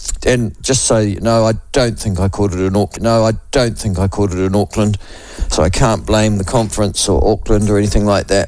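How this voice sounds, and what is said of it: Voice sounds ill. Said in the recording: “as you can probably hear from my voice”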